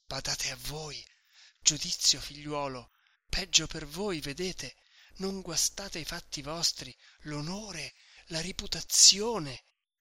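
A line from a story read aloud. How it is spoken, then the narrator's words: Whispering notary. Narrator (Italian): continuava a sussurrare il notaio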